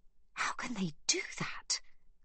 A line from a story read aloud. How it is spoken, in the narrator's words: gasps Magda